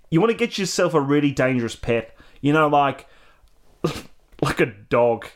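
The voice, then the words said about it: Weak put-on Australian accent. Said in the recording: “this fucking accent. Usually I've got Australian all right, but today it's just gone.”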